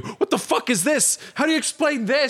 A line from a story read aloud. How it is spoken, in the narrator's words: Peters is shouting at you